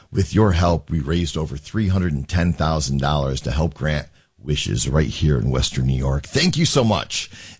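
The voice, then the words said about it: Hoarse, worn-out voice. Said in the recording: “my voice is shot from the game last night”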